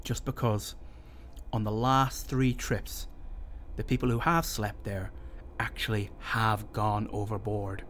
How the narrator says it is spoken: he answered gravely

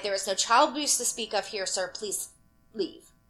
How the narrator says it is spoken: The owner, entirely done with the entire situation, icily replied

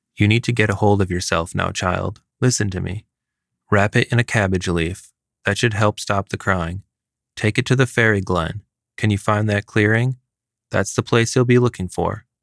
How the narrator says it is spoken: Marie said

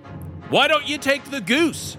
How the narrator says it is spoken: shouted Wendy

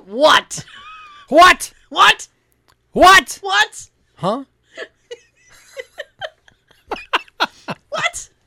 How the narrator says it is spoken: the person on the other end had trouble hearing him, so they just kept yelling

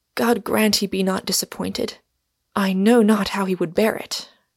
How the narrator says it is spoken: I heard her whisper

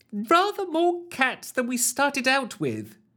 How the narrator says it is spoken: she squealed through the intercom

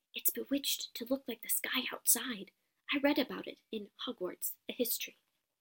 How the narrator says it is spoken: Hermione whisper

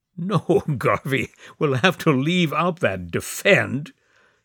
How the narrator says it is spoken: said Gory with a loud laugh

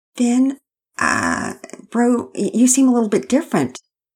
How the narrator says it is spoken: Pearson began nervously

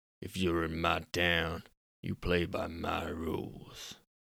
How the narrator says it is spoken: muttered Randall

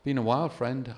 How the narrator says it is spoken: I replied

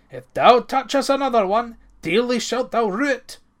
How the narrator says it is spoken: Ranald cried in rage

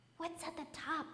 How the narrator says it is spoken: it whispered

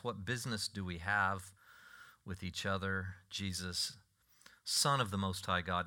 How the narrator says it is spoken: he cried out and fell before him and said in a loud voice

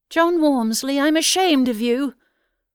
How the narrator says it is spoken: Nothing daunted, Ellen called back indignantly

